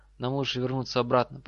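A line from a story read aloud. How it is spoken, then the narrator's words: Trembling voice. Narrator (Russian): произнес Драко дрогнувшим голосом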